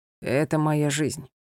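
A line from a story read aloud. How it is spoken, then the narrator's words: Calm. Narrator (Russian): спокойно ответил он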